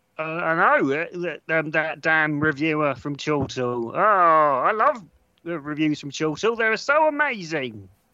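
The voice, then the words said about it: Congested, slightly altered voice. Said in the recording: “He sounds a bit different as well. ... I've got a cold.”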